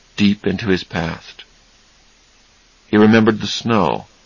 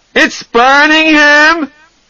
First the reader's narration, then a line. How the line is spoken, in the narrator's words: He screamed